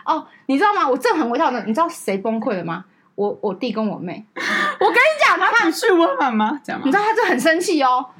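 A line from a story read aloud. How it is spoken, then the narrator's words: Smiling. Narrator (Chinese): 我就是很微笑……就说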